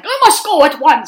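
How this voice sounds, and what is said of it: Put-on British accent. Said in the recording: “he did have a British accent”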